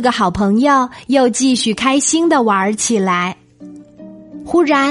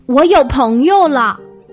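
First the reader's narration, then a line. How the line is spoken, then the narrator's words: Overjoyed, loud shout. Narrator (Chinese): 箭猪听了，真是高兴极了，他大声的喊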